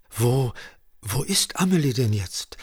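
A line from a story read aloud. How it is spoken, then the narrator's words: Stammering. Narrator (German): stammelte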